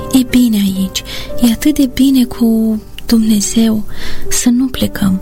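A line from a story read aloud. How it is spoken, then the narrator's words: Whisper. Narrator (Romanian): șopti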